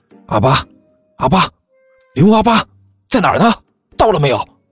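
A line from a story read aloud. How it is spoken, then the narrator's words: Hushed call. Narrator (Chinese): 他压低声音喊道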